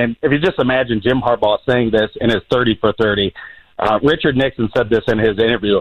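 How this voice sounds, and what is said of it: Usual voice. Nothing is said of it.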